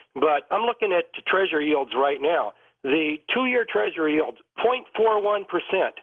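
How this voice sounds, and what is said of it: Voice affected by a cold. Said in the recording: “I've got a little bit of a cold”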